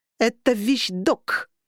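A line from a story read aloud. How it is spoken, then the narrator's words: Growled. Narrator (Russian): прорычала я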